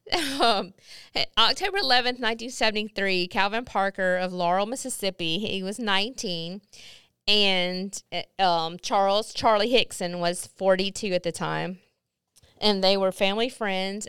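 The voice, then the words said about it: Mississippi accent. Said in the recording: “I love how my Mississippi accent comes out when I'm talking about Mississippi”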